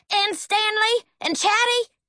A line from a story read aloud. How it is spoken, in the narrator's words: Howard practically hollered